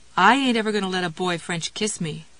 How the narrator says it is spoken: Karen said

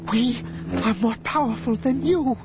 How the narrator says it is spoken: Dorskedi One gasped

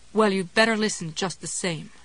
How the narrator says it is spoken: Ruth said grimly

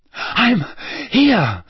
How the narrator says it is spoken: Harry panted

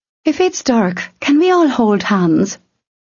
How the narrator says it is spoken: Ululenia giggled

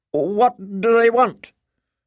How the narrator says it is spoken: she asked nervously

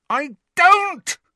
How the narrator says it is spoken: Harry screamed, so loudly that he felt his throat might tear

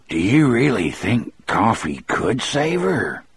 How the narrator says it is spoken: Dean asked in a soft, awed voice

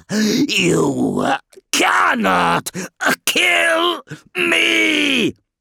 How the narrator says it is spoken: it roared

